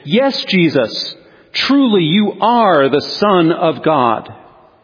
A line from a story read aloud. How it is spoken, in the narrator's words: exclaim in unison with the weary disciples